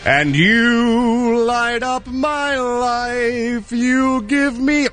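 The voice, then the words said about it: Imitates another person's singing voice. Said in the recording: “my impression of Joseph Brooks, the guy who wrote You Light Up My Life”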